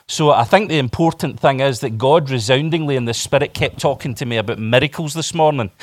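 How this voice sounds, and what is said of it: Scottish accent. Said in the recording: “I hope you can understand what I'm saying. ... the Scottish accent.”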